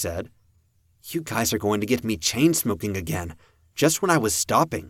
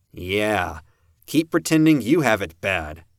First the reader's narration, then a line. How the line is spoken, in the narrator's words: Peter said, his voice thick with sarcasm